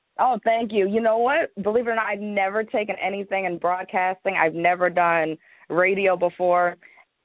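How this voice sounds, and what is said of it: Polished radio-style voice. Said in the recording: “You have a radio voice as well”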